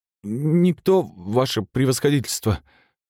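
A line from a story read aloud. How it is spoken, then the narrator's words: Mumbling. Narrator (Russian): промямлил один из дежурных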